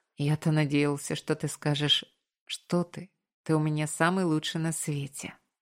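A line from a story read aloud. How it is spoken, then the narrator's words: Joking, affectionate. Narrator (Russian): пошутил я, ласково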